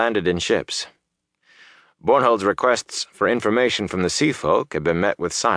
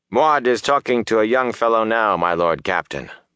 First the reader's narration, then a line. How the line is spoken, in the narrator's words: Byra said